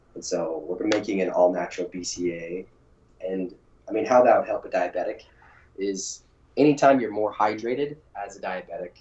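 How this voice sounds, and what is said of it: Raspy, froggy voice. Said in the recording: “my voice is a little bit raspy. I came down with a cold just a couple days ago... I sound like a kind of froggy voice”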